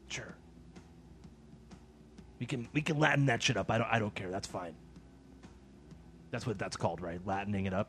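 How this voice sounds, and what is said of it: Angry-sounding character voice. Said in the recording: “You sound so mad about it. ... I always sound mad when I'm doing this voice.”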